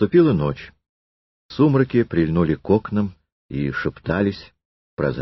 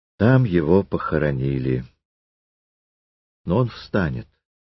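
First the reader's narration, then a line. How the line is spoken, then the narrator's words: Quiet. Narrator (Russian): Триродов тихо сказал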